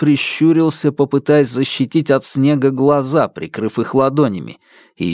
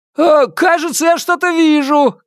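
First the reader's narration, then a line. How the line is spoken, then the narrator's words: Shouted. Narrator (Russian): крикнул Постольский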